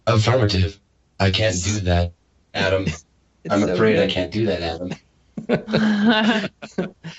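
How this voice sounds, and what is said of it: Robotic voice-changer voice. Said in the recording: “my dumb little voice changer, which I love so much ... Give me that robot voice”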